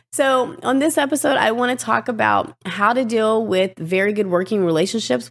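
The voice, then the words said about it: Raspy voice. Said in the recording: “My voice is still rasp.”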